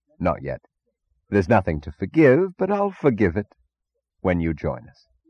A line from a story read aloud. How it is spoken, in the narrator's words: chuckled gaily, remembering, and answered